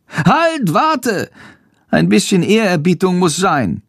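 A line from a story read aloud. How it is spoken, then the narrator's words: Calling out. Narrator (German): ruft Schandor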